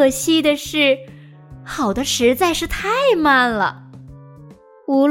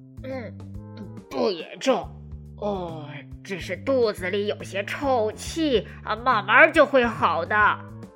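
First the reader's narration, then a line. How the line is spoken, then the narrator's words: Low, muffled. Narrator (Chinese): 医生……捂着鼻子低声的说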